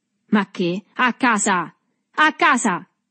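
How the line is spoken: Infatuated man's shout. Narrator (Italian): gridò l'uomo infatuato

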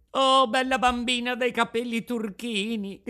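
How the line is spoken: Shouting. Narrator (Italian): gridava Pinocchio

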